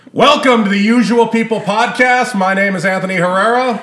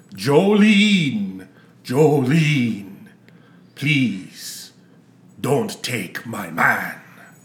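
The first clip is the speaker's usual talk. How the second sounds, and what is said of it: Sings in a vampire voice. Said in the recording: “Why do you sound like a vampire? ... Dracula's go-to karaoke song”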